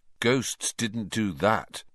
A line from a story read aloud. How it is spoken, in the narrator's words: he said slowly